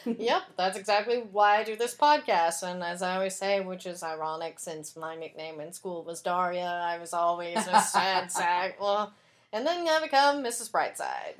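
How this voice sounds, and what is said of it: Flat monotone voice. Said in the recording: “You've got like this monotone voice”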